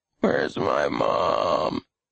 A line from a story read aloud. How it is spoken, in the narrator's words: Lenny asked weakly